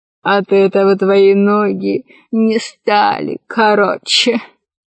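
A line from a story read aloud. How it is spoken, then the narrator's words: Laughing. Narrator (Russian): засмеялся Дуагим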